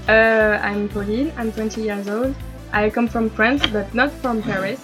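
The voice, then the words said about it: Noticeable foreign accent in English. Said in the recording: “I love your accent, it's so sexy.”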